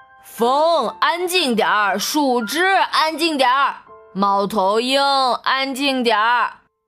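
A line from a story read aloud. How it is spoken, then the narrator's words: Loud calling. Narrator (Chinese): 大老鼠大声叫着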